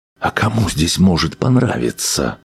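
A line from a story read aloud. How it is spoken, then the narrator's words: Whispered reply. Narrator (Russian): тоже шепотом ответил Арнольд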